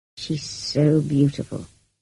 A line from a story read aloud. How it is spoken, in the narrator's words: murmured